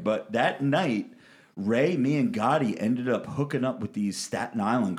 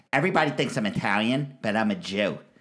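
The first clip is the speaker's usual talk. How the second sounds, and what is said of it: Strong Staten Island accent. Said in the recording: “she had that strong Staten Island accent.”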